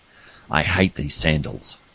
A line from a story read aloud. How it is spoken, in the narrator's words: she said angrily, meaning every word